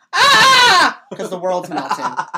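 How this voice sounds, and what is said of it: Loud polar bear roar impression. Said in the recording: “my impression of a polar bear ... Look at that solid block of sound ... That is going to fry somebody's stereo system ... covering the entire vertical spectrum ... Sorry about your ears.”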